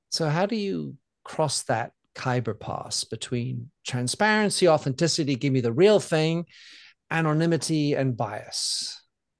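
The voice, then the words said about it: French accent. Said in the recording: “from my accent you hear that I je suis très français”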